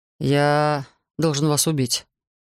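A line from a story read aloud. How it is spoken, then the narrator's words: Soft yet firm. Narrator (Russian): сказал я мягко и в то же время твердо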